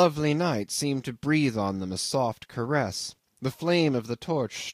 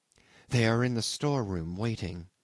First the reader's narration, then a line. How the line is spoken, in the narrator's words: whispered the girl